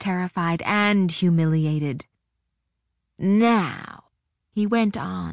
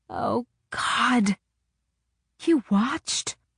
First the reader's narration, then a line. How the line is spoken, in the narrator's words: I wheezed